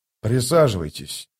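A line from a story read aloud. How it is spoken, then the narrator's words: Calm and quiet. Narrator (Russian): сказал он спокойным и тихим голосом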